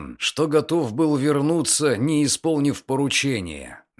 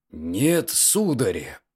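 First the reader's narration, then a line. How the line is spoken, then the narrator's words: Muttering. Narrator (Russian): пробормотал он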